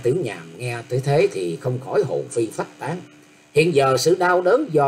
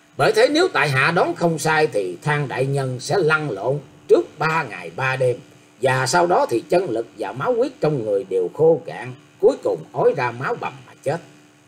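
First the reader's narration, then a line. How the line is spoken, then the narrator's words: Laughing loudly. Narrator (Vietnamese): Nam Cung Bách Thu buộc miệng cười to rồi tiếp rằng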